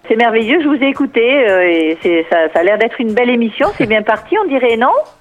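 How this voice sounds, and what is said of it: Southern French Catalan accent. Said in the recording (French): “ce joli accent nous vient de Perpignan”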